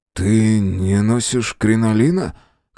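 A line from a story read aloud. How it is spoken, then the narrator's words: Hoarse remark. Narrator (Russian): хрипло заметил Мэлори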